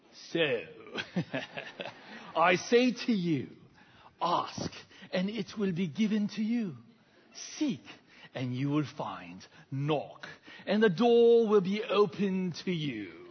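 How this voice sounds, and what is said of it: British accent like movie Jesus. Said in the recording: “every single Jesus movie that was ever made, why is it that he has a British accent? ... this accent makes him seem even more sophisticated and dignified. And so let me try that out”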